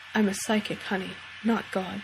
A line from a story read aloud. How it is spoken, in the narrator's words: Missouri adds, in a soft voice